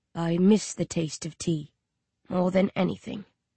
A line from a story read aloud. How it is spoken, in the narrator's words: he says softly